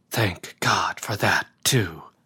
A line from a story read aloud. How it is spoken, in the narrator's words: whispered the crawling man